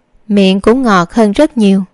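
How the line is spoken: Smiling. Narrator (Vietnamese): Đường Thư Nghi mỉm cười

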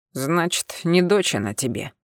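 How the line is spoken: Scoffing grunt. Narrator (Russian): хмыкнул Миранец

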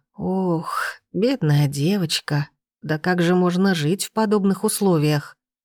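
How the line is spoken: Sighing. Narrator (Russian): Вздохнула она

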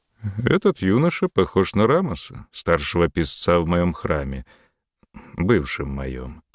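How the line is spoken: Feigned indifference, self-correcting. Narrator (Russian): поправился Рахотеп нарочито безразличным голосом

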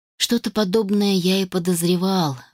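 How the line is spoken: Sighing. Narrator (Russian): вздохнул Адам

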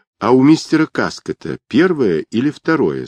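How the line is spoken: Plain. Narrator (Russian): спросила Недда

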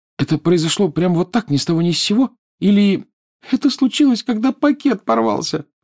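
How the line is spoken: Sobbing. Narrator (Russian): всхлипнула Лиана

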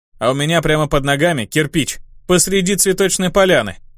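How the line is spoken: Wry snort. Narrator (Russian): хмыкнул я

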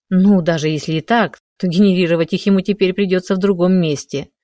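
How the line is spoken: Wry snort. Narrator (Russian): хмыкнул Романенков

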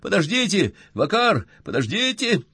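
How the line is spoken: Very loud shouting. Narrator (Russian): Он кричал очень громко

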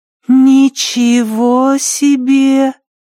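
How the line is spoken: Drawn-out drawl. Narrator (Russian): протянула Лу

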